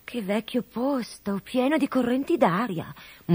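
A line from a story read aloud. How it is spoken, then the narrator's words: Murmur. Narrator (Italian): mormorò Codabella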